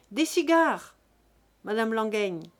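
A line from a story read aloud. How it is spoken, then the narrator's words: Thundering command. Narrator (French): commanda Jésus-Christ d'une voix tonnante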